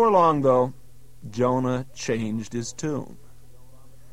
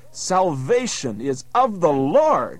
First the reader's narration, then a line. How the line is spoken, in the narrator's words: exclaiming